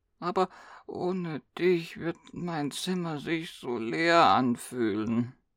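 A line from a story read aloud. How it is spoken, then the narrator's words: Quiet whining. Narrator (German): jammerte sie leise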